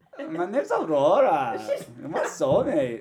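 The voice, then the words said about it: Put-on Swedish-like accent. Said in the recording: “What accent is that? ... it's like Swedish. ... It's like a Swedish, yeah.”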